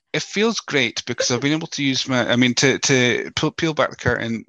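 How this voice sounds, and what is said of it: Scottish accent. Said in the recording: “my voice uh, as as Scottish as it may be”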